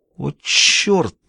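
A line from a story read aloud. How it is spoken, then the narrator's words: Exclaimed. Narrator (Russian): воскликнул Джулиус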